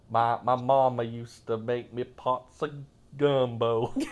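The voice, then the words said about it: Louder put-on Alabama Southern accent. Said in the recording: “your Alabama accent ... the volume of your voice also increased”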